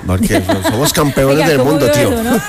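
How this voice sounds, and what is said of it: Put-on Spanish (Spain) accent. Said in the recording (Spanish): “Tengo que sacar el acento español, tío ... El acento español porque ajá.”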